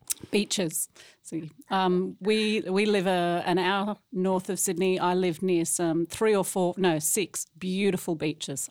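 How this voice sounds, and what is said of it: Australian accent. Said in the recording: “we do love the accent ... hear someone who actually speaks differently than we do in the South uh, in the United States ... most people find this accent ugly”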